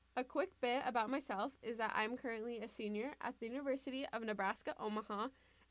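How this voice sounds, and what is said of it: Excited, enthusiastic voice. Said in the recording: “In case you can't tell by my voice, I am super excited”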